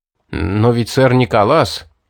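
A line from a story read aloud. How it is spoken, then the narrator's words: Mumble. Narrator (Russian): промямлил Патрик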